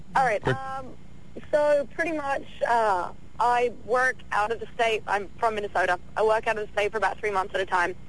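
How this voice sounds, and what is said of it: English accent. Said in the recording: “Are you Australian? ... Where's your accent from? ... England.”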